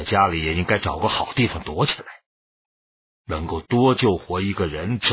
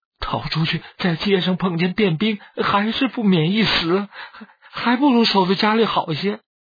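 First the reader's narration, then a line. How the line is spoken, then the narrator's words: Anxious, tearful. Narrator (Chinese): 周氏急着带哭地说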